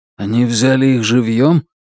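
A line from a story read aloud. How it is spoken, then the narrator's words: Weary dejected sigh. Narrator (Russian): Утёс устало и подавленно вздохнул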